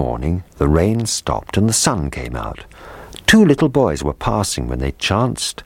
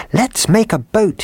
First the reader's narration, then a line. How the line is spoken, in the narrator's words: he cried